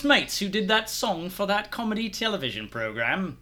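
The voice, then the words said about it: Poor put-on British accent. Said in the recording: “I can normally do a British accent. That was terrible. ... it sounded better than what I could do. ... Oh, that was garbage.”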